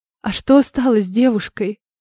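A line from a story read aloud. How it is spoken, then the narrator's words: Quiet question. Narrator (Russian): Тихо спросила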